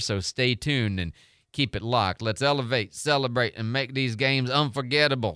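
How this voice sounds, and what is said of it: Imitates another person's voice, slightly southern. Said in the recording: “do my best to do Snoop's voice ... I got a little southern on him ... That's as close as I get to doing a Snoop Dogg impression. I know it's pretty pathetic ... You get a little flavor of the, you know, the tone”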